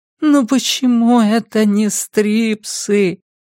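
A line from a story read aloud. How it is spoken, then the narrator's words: Silent inner groan. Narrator (Russian): мысленно простонала она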